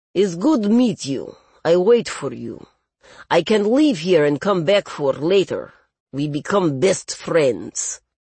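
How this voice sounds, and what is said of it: Thick Russian accent. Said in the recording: “a thick Russian accent”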